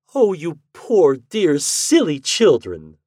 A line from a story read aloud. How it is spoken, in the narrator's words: my wife cried